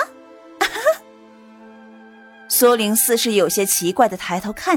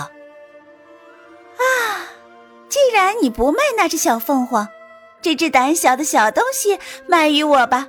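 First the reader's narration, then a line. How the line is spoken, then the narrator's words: Smiling. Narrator (Chinese): 他又恢复了笑容，道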